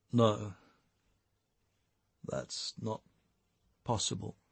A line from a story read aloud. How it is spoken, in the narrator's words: Jake muttered, … by the weight of his shame